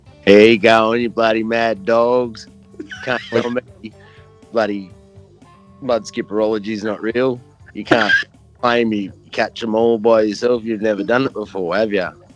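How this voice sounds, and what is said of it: Imitates another person's voice. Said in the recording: “I also do impressions... my impression of Dr. Christopher Bates”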